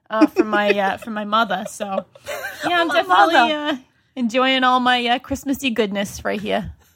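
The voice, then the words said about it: Rhode Island accent. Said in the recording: “I was told to do this in my natural Rhode Island accent ... and then I'll go back to my California lilt. But I think I'll probably do the whole thing in my accent.”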